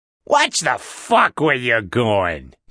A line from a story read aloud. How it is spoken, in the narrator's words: Carmel growled